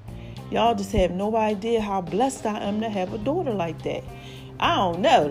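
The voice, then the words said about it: Out of breath, panting speech. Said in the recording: “I'm in the middle working out, doing my workout thing like I do. So I'm all out of breath.”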